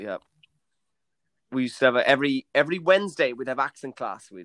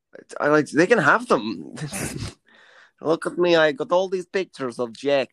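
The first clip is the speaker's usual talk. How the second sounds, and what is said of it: Put-on Russian accent. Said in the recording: “that's a great Russian accent”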